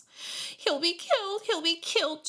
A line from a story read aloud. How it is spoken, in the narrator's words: she moaned